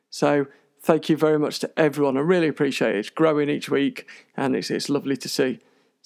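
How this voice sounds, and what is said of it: UK speaker's own strong accent. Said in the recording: “I hope you can understand my rather strange accent”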